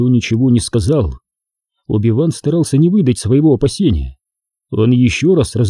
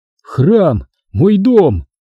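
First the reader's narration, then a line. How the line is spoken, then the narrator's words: Exclamation. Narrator (Russian): воскликнул он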